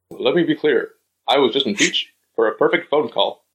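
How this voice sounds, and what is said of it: Imitates another person's voice. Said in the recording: “It's spot on. It's perfect. That's exactly what he sounds like.”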